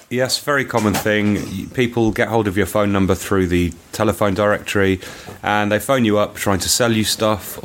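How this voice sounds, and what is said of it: Slightly congested voice. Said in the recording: “I've got a bit of a cold”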